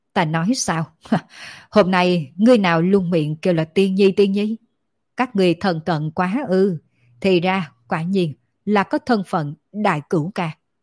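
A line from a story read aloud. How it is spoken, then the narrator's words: Astonished loud laughter. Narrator (Vietnamese): Thánh Quân kinh ngạc một lúc lâu, đột nhiên thất thanh ôm bụng cười to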